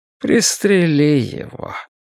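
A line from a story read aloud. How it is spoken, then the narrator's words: Weary. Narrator (Russian): Креснер произнес устало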